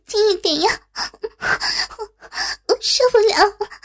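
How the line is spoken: Breathy panting. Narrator (Chinese): 娇喘连连地说

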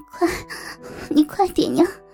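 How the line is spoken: Quiet pleading. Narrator (Chinese): 江雪小声地哀求着

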